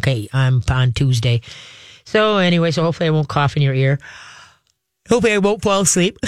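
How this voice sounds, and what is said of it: Stuffy, congested voice. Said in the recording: “if my voice sounds a little bit off, it's because, yeah, I got bit by a summer cold ... if I sound stuffy ... I have a cold”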